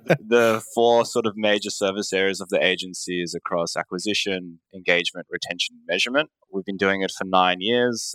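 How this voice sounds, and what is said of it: Australian accent. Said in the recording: “based in Australia, if you couldn't tell by my accent.”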